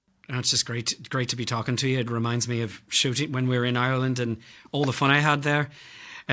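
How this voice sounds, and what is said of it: Put-on Irish accent. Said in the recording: “your brilliant Irish accent ... I'm very impressed. Not many Australians can do what you've done”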